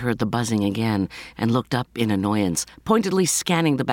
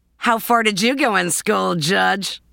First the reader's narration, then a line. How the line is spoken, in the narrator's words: yelled a man's voice in the back